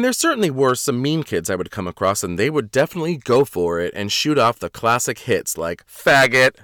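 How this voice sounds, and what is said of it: Usual voice. Nothing is said of it.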